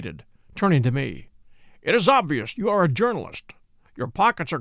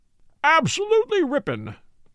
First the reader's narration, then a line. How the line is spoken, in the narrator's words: exclaimed Lord John